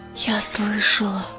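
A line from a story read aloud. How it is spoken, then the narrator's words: Whisper. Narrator (Russian): прошептала она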